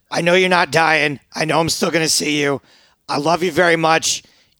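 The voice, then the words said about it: Choked-up, emotional voice. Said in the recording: “I'm actually getting a little choked up here”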